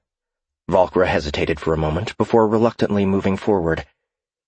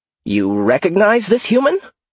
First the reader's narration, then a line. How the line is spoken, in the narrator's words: She asked in an elevated tone